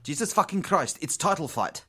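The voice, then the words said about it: Put-on South African accent. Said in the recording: “I went South African.”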